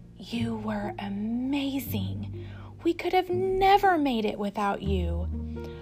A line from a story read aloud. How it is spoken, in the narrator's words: Sophia curled up next to Flora's cheek and whispered